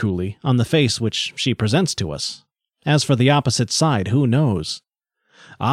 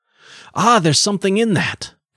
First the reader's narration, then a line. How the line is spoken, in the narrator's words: cried the two men at once